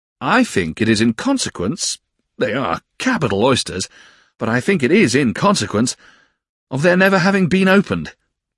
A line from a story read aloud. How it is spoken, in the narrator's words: said Traddles, cheerfully